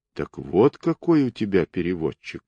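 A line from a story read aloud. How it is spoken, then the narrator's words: Softened voice. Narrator (Russian): проговорил он смягченным голосом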